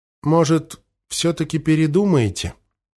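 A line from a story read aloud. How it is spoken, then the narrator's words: Hesitant mumble. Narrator (Russian): промямлил Нучик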